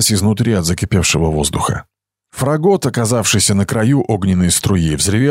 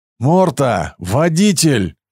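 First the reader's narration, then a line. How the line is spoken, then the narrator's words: Desperate shout. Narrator (Russian): отчаянно крикнул Каэль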